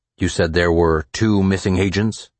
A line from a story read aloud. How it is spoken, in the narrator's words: Pope asked